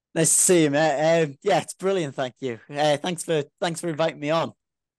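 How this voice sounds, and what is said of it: Northern English accent near Scottish border. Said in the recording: “I love your accent, man. It's great to hear someone from, you know, just below Scotland, like right on the border. Great accent”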